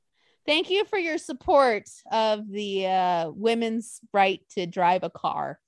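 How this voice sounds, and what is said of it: Sarcastic tone. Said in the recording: “being sarcastic, obviously”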